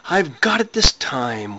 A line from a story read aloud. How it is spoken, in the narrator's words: Wentworth screamed at the publisher's face